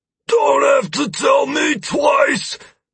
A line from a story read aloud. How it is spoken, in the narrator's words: Drace yelled back at me